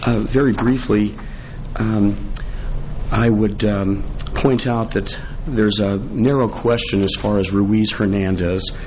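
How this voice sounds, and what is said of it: Impaired, strained voice. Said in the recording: “I apologize for my voice this morning”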